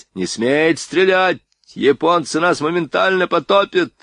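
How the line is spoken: Terrified yell. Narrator (Russian): в ужасе заорал мичман Бирюлев

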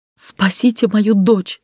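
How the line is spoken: Woman gasping through sobs. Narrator (Russian): сквозь рыдание выдохнула женщина

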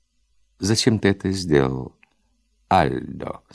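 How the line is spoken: Calm question. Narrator (Russian): спокойно спросила Нелла

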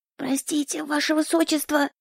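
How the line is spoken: Whispered. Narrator (Russian): Я не говорила, так, шептала

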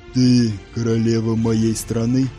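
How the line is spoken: Deep bass voice. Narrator (Russian): проговорил он густым басом

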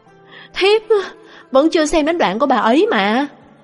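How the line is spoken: Suppressed low shout. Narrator (Vietnamese): không nhịn được, thấp giọng hét

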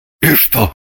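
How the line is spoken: Grumbling. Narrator (Russian): буркнул Шульгин

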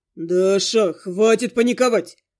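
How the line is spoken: Irritated ghost growling. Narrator (Russian): рыкнул явно раздраженный моим поведением призрак

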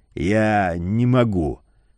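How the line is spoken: Hoarse rasp. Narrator (Russian): прохрипел Ледорез

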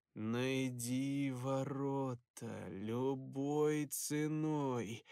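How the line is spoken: Nasal voice from behind. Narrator (Russian): За спиной гнусавый голос произнес

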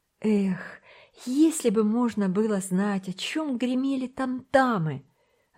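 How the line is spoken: Wistful sigh. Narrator (Russian): вздохнул Томик

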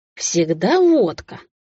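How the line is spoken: Chuckling. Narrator (Russian): Айван хохотнул

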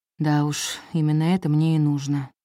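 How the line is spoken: Sighing. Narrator (Russian): вздохнул Иэн

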